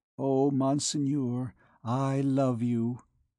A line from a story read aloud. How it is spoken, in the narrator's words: La Esmeralda remained silent for a moment, then a tear dropped from her eyes, a sigh from her lips, and she said